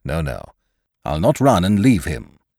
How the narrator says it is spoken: exclaimed Lowe warmly

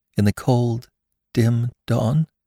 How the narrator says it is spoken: quavered

